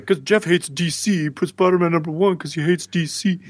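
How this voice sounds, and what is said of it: Imitating the show's listeners. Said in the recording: “Good impression of our listeners”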